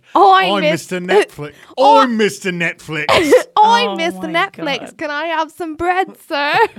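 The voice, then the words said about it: Put-on British accent. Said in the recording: “Do it with a respectful accent, please... It's British.”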